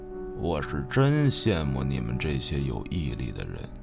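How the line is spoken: Repeated mumbling. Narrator (Chinese): 他嘴里一直嘟嘟囔囔的重复着

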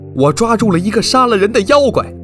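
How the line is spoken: Shouting. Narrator (Chinese): 杨三儿大喊说

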